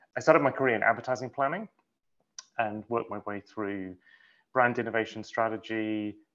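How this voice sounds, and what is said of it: British accent, slightly mid-Atlantic. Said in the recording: “my American friends still say I sound like completely British, and my British friends think I'm floating somewhere in the mid-Atlantic these days with my accent”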